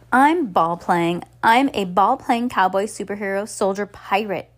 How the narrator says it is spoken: cried

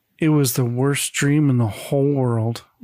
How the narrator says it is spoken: Bobby sighs and says

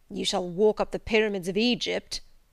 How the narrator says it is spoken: he growled

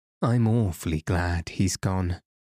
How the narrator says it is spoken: said Betsy, sighing deeply

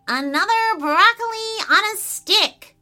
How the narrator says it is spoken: shouted the miniature blue person into the chilly depths

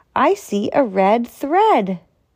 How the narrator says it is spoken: cried

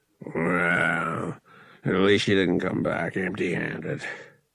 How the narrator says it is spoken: the captain grumbled

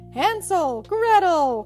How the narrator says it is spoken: cried

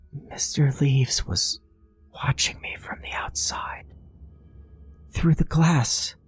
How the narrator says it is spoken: she whispered

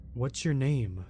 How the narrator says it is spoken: I asked

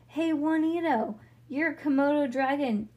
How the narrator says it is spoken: Leo yelled

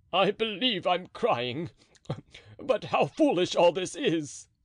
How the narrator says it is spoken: said Porthos, sobbing

